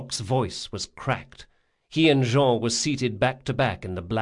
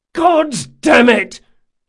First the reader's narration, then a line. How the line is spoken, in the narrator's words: Locke yelled